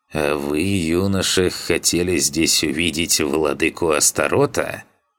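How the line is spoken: Creaky old man's voice. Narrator (Russian): проскрипел старик

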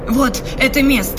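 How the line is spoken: Sudden cry. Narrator (Russian): вскрикнула она

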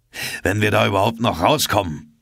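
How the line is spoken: Calling out. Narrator (German): rief Ned Land

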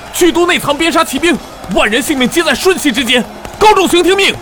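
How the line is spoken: Shouting. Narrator (Chinese): 有人朝着军帐高喊着

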